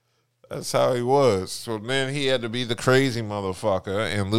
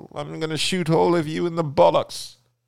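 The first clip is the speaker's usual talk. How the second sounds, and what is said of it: Put-on British accent. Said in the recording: “I'm going to lose this British accent ... lose his British accent”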